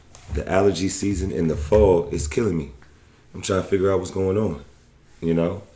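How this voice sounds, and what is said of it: Hoarse, raspy voice. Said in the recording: “I sound a little hoarse, a little raspy,... it's definitely allergy season”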